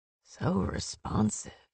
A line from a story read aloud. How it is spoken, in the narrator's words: he purred in a voice she'd never heard